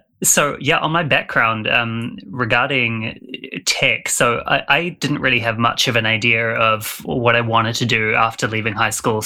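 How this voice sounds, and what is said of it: New Zealand accent. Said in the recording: “I'm from New Zealand, so apologies to any of your listeners who struggle with the accent”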